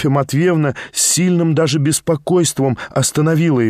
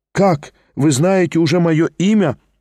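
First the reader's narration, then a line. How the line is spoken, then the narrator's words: Joyful, smiling. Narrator (Russian): улыбнулся он радостно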